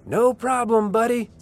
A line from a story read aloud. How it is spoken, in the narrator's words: I yelled back